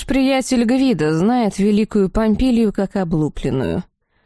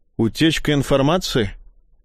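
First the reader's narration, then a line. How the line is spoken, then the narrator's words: Girlish snort, old woman. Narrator (Russian): Старуха фыркнула, словно девчонка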